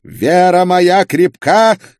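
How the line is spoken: Inquisitor's shout. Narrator (Russian): крикнул инквизитор

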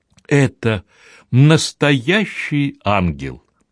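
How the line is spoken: Warm motherly exclamation. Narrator (Russian): воскликнула добросердечная матушка

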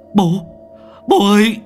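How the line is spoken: Shouting. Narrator (Vietnamese): Lai hét lên

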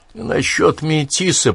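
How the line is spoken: Muttering. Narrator (Russian): пробормотал он

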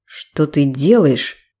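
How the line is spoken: Stunned but quiet question. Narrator (Russian): Ошалела, но тихо спросил Дэнни

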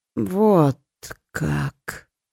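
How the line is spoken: Drawling. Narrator (Russian): протянула Ори

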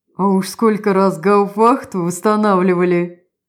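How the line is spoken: Chuckled. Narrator (Russian): Опять хохотнул Вайнер

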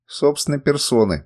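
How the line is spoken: Grumble. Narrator (Russian): проворчал я

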